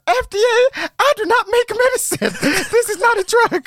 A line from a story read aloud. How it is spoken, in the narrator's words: she passionately cried